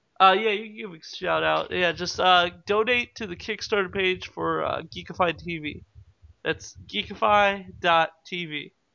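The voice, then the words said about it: Rough, damaged voice. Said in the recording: “sorry for my voice, guys. I did the cinnamon challenge earlier, so my voice is really fucked up.”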